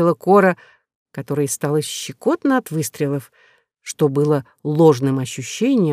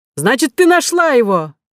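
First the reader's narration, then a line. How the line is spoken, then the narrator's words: Joyful shout. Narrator (Russian): закричал радостно Милодар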